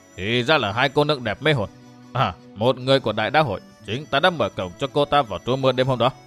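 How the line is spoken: Muttering. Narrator (Vietnamese): lẩm bẩm

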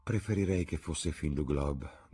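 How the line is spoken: Sighing. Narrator (Italian): disse Dorian con un sospiro

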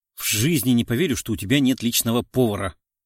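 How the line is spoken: Displeased mutter. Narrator (Russian): недовольно бормочет Елена

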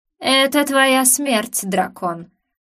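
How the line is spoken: Growling threat. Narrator (Russian): прорычал убийца

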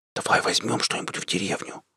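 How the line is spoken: Whispered. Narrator (Russian): зашептал Сашка

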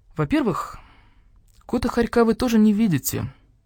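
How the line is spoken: Calm speech. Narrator (Russian): спокойно сказал барсук-старший

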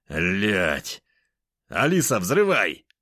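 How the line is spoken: Shouted out. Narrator (Russian): выкрикнул я

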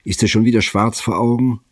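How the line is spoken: Calling across. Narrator (German): rief Safronow herüber

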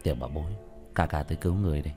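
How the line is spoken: Quiet voice. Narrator (Vietnamese): Tiểu Thất nhỏ giọng

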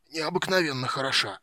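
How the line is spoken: Hoarse, tearful. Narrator (Russian): прохрипел Стурм, вытирая текущие слезы

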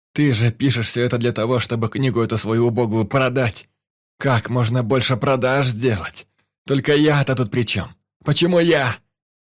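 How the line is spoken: Shouting into emptiness. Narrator (Russian): Иван кричал в пустоту

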